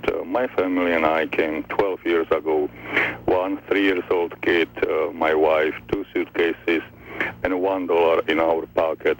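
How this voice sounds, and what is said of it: Foreign accent in English. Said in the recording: “obviously, hear my accent.”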